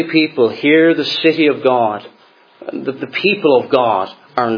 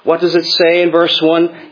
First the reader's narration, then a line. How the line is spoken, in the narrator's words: cried out with a loud, or literally a great and bitter cry